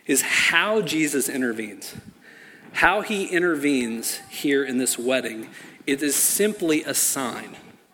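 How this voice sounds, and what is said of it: Speaking very slowly. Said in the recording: “saying this really slowly”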